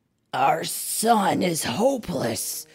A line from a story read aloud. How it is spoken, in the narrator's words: groaned Papa Wolf